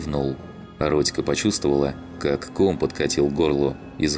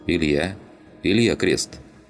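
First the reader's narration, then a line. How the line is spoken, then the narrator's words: Plain. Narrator (Russian): ответил моряк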